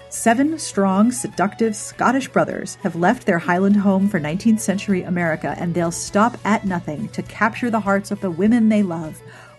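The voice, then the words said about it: Mock-serious ad-reading voice. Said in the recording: “Back to serious voice.”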